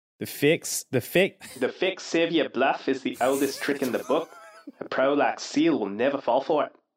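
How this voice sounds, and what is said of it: Gruff put-on New Zealand accent. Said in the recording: “your best New Zealand gruff Mandalore accent ... Sounds a little more South African than me”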